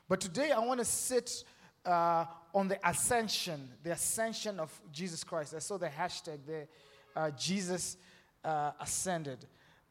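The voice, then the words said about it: Southern African-accented English. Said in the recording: “I have a very Luya accent, and then some people accuse me of having a different accent ... go back to Zimbabwe look”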